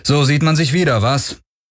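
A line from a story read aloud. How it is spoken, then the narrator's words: Cool, unwarm call. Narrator (German): rief Galen ohne große Herzlichkeit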